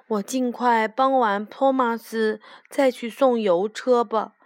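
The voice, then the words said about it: Quiet mumbling voice. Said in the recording (Chinese): “裴西小声地咕哝着”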